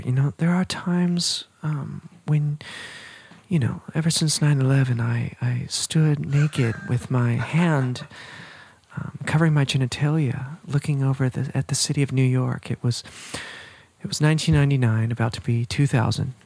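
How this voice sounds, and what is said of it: Soft-spoken, dramatic feminine character voice. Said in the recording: “I was doing my Millie impression ... you do a pretty good Millie impression ... Millie is like the feminine ... more soft-spoken and a little more dramatic”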